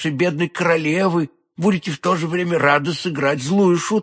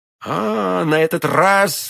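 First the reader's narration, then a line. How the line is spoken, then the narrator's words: Exclamation. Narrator (Russian): воскликнул Д'Артаньян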